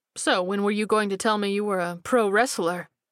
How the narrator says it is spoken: He asked in a teasing tone

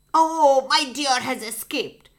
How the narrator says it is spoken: he shouted furiously

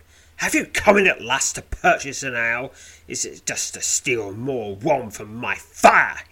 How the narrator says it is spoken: he barks

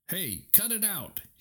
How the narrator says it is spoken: he cried, frantic

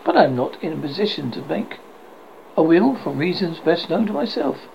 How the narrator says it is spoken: exclaimed

